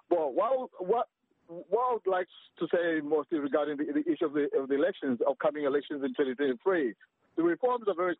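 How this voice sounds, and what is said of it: Strong accent when speaking English. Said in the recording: “my accent is absolutely terrible. Some people they might end up not hearing what I'm saying.”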